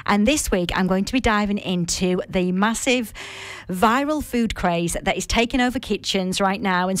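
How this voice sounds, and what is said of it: Northern English accent. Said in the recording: “my nice northern accent”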